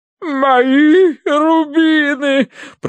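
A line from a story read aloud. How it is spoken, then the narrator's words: Sobbing. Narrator (Russian): прорыдала она полковнику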